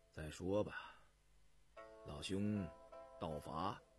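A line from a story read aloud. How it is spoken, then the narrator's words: Flat, indifferent tone. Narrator (Chinese): 田文静 淡淡的说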